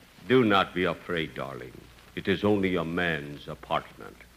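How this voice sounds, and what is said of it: Imitates a romantic TV host's voice. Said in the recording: “That fella on television who calls himself the Continental ... Boy, is he romantic ... who am I imitating?”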